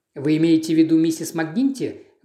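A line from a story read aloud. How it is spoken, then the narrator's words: Quick interjection. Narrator (Russian): быстро вставил Пуаро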